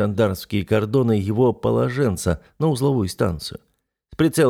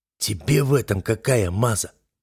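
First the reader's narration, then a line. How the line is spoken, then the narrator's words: Hoarse, disbelieving question. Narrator (Russian): хрипло спросил он, не веря своему счастью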